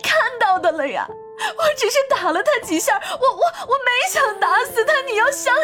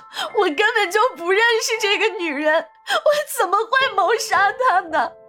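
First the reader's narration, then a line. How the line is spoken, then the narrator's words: Tearful, near crying. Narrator (Chinese): 银铃带着哭腔说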